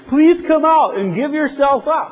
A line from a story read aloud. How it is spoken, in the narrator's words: the man was standing beside them shouting